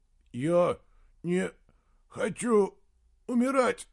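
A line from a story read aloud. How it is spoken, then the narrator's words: Hoarse rasp. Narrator (Russian): прохрипел Гримрик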